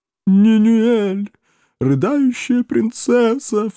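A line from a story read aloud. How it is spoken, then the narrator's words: Sobbing. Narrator (Russian): всхлипнувший Миловеллер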